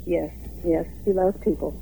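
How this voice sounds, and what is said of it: Slightly emotional voice. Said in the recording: “I was getting a little emotional there.”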